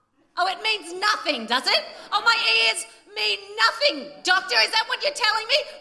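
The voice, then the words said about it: Angry yelling. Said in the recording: “Why am I yelling at you? ... very angry”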